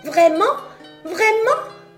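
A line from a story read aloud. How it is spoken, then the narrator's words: Joyful exclamation. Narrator (French): s'exclama la marionnette de joie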